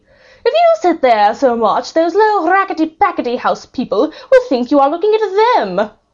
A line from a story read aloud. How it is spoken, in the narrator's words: Lady Gwendolen said haughtily and disdainfully and scornfully and scathingly